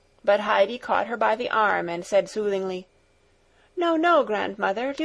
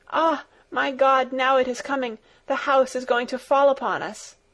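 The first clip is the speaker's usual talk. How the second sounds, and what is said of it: Trembling, frightened voice. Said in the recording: “in a trembling voice”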